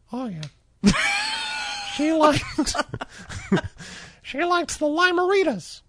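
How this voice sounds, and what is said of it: Drunk Mickey Mouse impression. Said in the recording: “a drunk Mickey Mouse impersonation”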